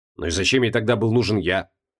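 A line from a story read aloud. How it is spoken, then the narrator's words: Grumbling. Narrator (Russian): проворчал Криол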